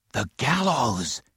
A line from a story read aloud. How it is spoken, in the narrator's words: he whispered